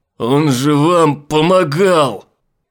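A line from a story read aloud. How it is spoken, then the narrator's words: Weak, horrified cry. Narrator (Russian): Слабее от ужаса выкрикнул Айзек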